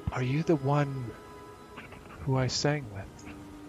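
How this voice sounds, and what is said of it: Female character voice. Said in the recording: “in a female voice”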